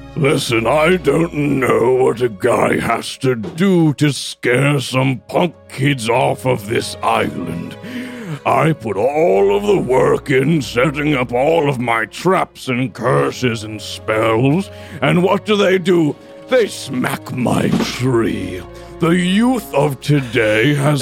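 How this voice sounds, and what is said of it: Scary character voice. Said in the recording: “scary voice”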